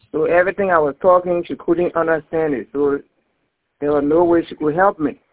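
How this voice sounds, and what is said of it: Strong accent, hard to understand. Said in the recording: “she couldn't understand my accent.”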